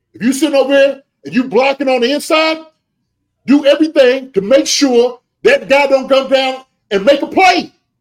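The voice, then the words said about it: Yelling, heated coaching voice. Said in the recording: “I'm calm down. I'm sorry. Calm down. ... That's how I'm yelling. That's how I'm yelling at my guys.”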